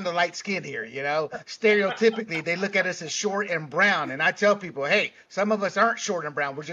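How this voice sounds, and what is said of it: Usual voice. Nothing is said of it.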